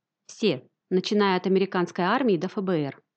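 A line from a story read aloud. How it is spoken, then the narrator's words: Plain. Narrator (Russian): ответил Дэвид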